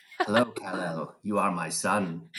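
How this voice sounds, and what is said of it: Fairly robotic movie-character impression. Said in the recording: “my own Marlon Brando impressions ... I generally default to like Superman ... in this fairly robotic voice”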